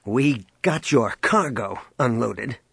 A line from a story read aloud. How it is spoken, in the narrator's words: he snapped